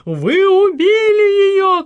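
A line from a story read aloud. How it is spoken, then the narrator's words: Shouting. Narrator (Russian): кричала Мария Каролина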